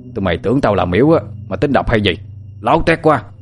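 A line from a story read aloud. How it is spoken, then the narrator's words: Old man grumbling curses. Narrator (Vietnamese): Một ông lão trâu tóc bạc phơ lật đật chui ra, hướng về phía thằng Sinh và Tú Linh mà lầm bầm chửi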